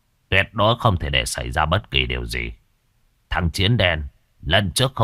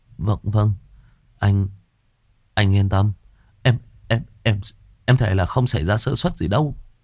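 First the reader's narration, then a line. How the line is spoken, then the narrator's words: Stammering. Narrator (Vietnamese): Một thằng lắp bắp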